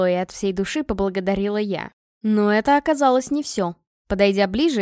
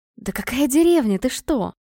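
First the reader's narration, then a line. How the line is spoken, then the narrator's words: Hissing. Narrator (Russian): зашипела она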